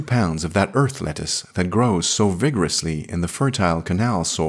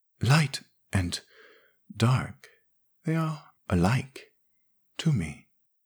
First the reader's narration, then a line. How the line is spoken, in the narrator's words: she murmured